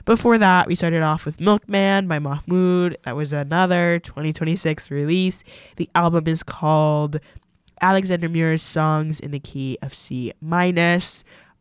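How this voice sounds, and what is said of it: Stuffy, congested voice. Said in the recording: “my voice is sounding really stuffy. ... I've like caught some really bizarre cold.”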